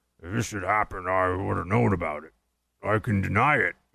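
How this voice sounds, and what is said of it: Rough impression of James Clapper. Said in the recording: “Not the best Clapper impression, but, you know, close enough.”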